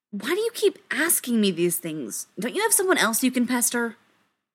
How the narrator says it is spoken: Maybe it was the lack of sleep making him crankier than usual, but he snapped

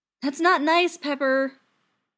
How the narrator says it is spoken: Tony yells, and winces at how much it hurts to draw the breath to raise his voice

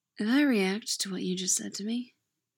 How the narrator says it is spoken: Owen says, his tone is light

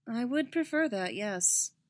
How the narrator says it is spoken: Padme said dryly

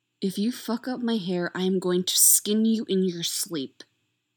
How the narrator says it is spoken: she hisses

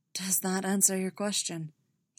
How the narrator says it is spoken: he asked, his voice rasping slightly

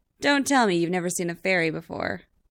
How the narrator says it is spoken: Chris retorts, hiding his pleased grin

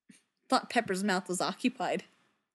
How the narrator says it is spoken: says, and snorts

